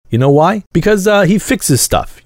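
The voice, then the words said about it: Put-on mob accent. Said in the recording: “that's really the best mob accent I can do”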